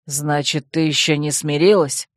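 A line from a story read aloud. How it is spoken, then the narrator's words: Growl then hiss. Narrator (Russian): рыкнул Койл и прошипел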